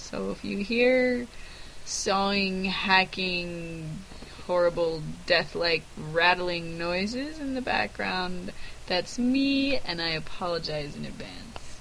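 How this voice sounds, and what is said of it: Congested, sick-sounding voice. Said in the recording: “You can probably hear in my voice that I have a chest cold”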